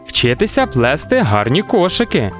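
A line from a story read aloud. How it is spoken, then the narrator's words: Cheerful exclamation, together. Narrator (Ukrainian): весело вигукнули Анешка та Мілош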